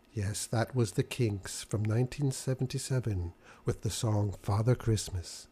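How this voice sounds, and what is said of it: Soft, soothing, calming voice. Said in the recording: “put on my nice soothing voice ... to help you relax and settle down”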